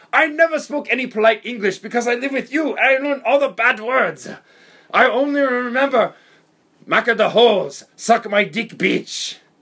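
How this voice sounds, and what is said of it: Weird put-on Japanese accent. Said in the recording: “What kind of accent is this, dude? This is the weirdest Japanese accent I've ever heard. You sound like Speedy Gonzalez, dude.”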